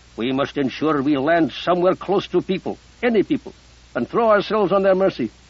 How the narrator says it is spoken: Musa growled

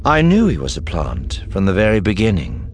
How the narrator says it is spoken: Thrawn said calmly

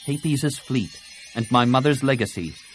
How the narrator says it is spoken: Tenel Ka said curtly

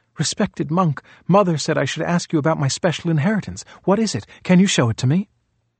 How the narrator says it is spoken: Almost out of breath, Rahula gasped

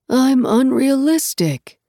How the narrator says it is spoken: he said aloud with another sigh and another shiver

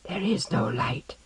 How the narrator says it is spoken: Hanno whispered

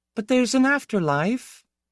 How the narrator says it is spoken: Piera said timidly

